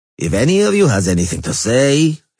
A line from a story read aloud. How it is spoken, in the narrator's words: he said dryly